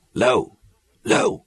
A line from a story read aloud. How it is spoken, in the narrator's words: I croaked huskily